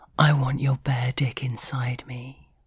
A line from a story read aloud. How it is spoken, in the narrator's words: I whisper